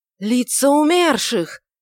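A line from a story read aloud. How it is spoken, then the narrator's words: Frightened shouts from all sides. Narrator (Russian): испуганно кричали со всех сторон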